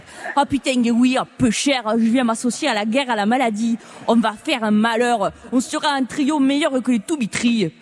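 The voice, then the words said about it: Put-on southern French accent. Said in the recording (French): “avec l'accent du Sud”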